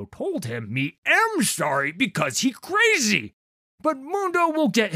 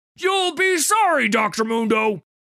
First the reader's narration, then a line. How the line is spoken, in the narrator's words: He keep yelling